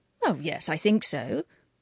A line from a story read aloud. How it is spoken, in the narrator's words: said the Reverend Herbert, brightly and firmly, meaning really that he hoped so